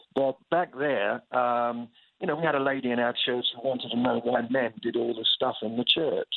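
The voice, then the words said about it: English accent. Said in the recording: “you probably noticed I've got this accent thing ... I had a successful accent refurbishment procedure back in England, so it's fairly fresh and new again”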